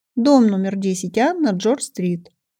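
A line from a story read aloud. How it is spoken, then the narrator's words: Plain. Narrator (Russian): сказала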